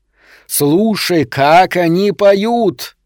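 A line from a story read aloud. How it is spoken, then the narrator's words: Roaring. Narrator (Russian): взревел принц Вулкан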